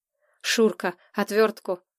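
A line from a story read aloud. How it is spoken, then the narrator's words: Heated exhale. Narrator (Russian): Жарко выдохнул Платон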